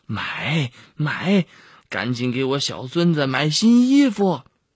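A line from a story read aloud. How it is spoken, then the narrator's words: Beaming eager agreement. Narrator (Chinese): 婆婆 满脸堆笑的应承着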